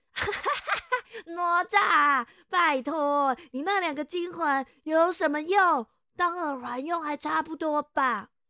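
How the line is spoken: Laughing loudly. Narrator (Chinese): 木吒立刻就大笑的说

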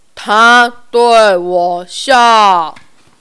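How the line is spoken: Slow, word by word. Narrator (Chinese): 士兵一个字一个字慢慢的说

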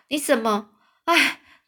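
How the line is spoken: Exclaiming in surprise. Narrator (Chinese): 五右卫门是惊叹说

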